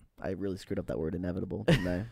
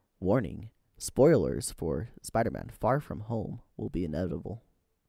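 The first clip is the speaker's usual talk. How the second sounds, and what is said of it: Public service announcement voice. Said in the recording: “do your PSA voice. Do your PSA voice.”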